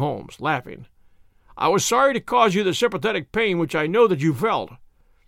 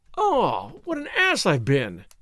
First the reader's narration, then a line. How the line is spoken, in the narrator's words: I exclaimed